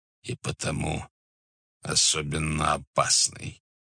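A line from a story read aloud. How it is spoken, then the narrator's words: Gloomy reply. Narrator (Russian): ответил тот мрачно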